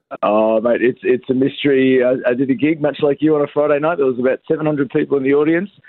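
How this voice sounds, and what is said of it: Voice affected by illness. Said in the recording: “Sorry about the voice. Suffering from the old COVID.”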